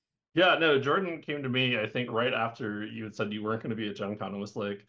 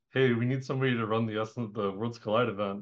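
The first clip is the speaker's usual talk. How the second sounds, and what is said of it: Weird imitation of another person's voice. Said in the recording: “that is a really weird Jordan impression ... it's probably not a very good Jordan impression”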